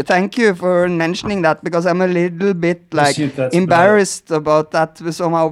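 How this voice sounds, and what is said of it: Scandinavian accent in English. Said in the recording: “fucking cool accent ... my Scandinavian accent”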